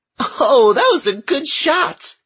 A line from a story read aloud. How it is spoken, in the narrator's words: Gilly said, giggling